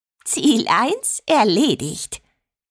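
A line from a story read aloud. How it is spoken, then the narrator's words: Giggling. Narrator (German): kicherte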